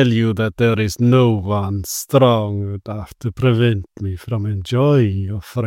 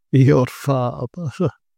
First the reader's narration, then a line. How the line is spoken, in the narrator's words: He laughed contemptuously